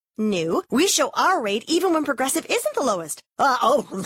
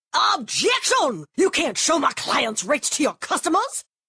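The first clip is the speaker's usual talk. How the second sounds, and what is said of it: Old-timey Southern lawyer voice. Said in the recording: “my impression of me arguing with an old-timey Southern lawyer”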